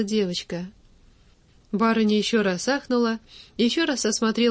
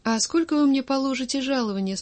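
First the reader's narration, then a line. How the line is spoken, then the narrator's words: Plain question. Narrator (Russian): спросила Дуня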